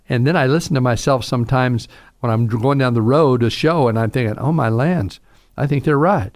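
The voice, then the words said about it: Southern American drawl. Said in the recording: “I have this southern drawl. I can't tell you how many people ask me if I'm from Oklahoma or Texas.”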